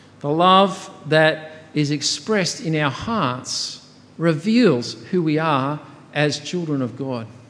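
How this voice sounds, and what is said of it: Australian accent. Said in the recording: “my accent that was built into me as an Aussie born and growing up here”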